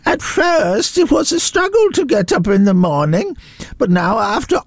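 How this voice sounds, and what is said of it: Put-on old voice, accent sounds Eastern European. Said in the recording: “Why is he an old Eastern European lady? ... That's an 87-year-old man from Kent ... I'm doing a Kent accent ... That's not a Kent accent, that's an Eastern European lady”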